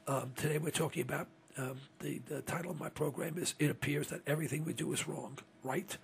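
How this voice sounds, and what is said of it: Hoarse, failing voice. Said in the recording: “I apologize for my voice. It's about shot ... I'm losing it altogether now”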